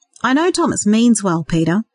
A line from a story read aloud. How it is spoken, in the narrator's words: he said